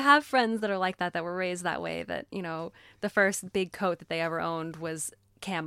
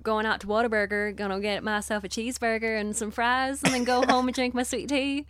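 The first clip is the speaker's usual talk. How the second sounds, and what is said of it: Put-on Texan twang. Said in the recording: “a Texan twang would kind of sound like ... Yosemite Sam type ... That's what a Texan accent would sound like”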